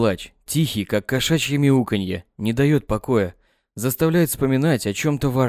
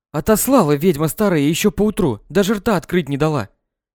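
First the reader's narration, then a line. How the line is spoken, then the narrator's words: Angry, hurried young voice. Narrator (Russian): Молодая волна говорит зло, торопливо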